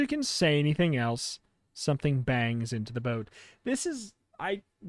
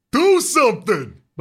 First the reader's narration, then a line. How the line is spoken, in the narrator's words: Bob shouts